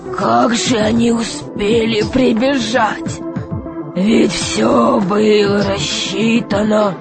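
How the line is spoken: Desperate muttering. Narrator (Russian): бормотал он в отчаянии

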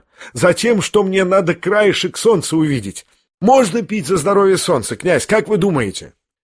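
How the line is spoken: Sharp commanding question. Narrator (Russian): Ипполит спрашивал резко, обращаясь ко всем без церемонии, точно командовал

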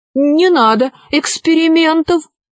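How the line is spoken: Pleading flying carpet. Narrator (Russian): взмолился ковер-самолет

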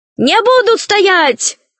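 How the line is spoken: Shouting. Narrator (Russian): кричал Лушкин

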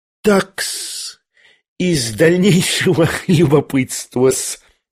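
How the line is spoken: Sudden giggle. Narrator (Russian): хихикнул вдруг Лебедев

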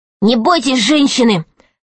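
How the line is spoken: Plain. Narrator (Russian): сказал Пашка

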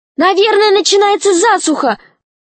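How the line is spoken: Shout. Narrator (Russian): крикнула Снегурочка

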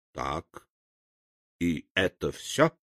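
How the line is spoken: Calm question. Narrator (Russian): спокойно спросил дровосек

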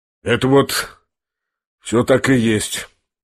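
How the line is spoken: Gloomy, sullen. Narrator (Russian): мрачно и насупившись подтвердил Рогожин

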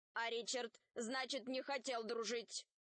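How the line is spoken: Stern robot question. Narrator (Russian): строго спросил робот Арх

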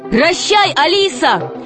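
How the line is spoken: Shout. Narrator (Russian): крикнул Греко

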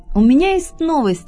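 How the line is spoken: Loud. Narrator (Russian): громко проговорил он

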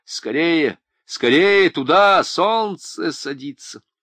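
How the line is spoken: Shouted. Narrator (Russian): Один из них крикнул

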